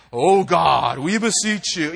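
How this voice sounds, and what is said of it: Mock solemn preacher prayer voice. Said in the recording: “your special, serious voice ... they use this like special voice”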